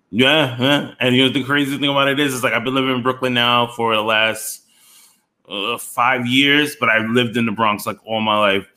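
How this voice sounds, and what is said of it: New York Bronx accent. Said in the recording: “your accent is so, it's not just New York. You have the Brooklyn accent. ... You definitely have the Bronx accent.”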